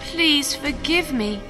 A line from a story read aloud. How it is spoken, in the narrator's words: begged